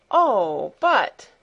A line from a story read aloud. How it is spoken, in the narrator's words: exclaimed Heidi